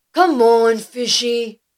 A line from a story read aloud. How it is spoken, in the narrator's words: shouted the Axie